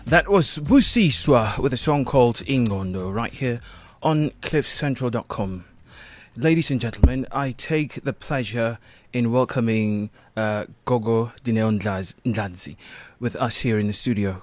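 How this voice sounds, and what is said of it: British-sounding accent. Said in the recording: “I'm still getting used to your accent ... you sound so British”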